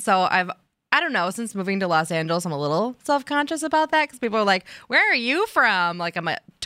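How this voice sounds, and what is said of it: Slight Midwestern American accent. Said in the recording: “I have a little Midwestern accent”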